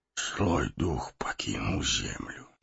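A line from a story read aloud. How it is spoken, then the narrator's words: Whisper. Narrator (Russian): прошептал Гэндальф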